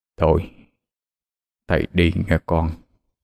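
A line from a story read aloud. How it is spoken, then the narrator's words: Warm smiling speech. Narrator (Vietnamese): mỉm cười chan hòa với Diệu Thiện mà nói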